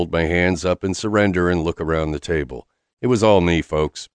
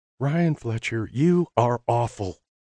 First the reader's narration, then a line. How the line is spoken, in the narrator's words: whispers